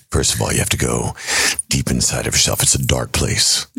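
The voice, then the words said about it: Batman character voice. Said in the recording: “I'm very impressed with my Batman... I want to hear the Batman voice”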